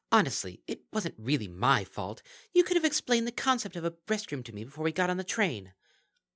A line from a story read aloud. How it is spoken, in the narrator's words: Aldevandra, who seemed to be feeling that not enough attention was being paid to her, piped up